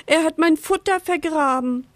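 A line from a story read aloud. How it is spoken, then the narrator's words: Sad bird peeping. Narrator (German): piepst traurig der Vogel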